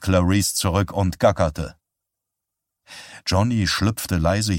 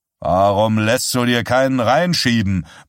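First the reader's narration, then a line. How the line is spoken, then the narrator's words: Flushed yelling. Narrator (German): brüllte O'Donnell errötend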